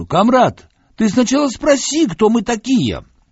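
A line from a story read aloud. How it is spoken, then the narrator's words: Shouted. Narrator (Russian): крикнуть немцу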